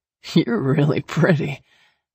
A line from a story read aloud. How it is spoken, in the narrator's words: he slurred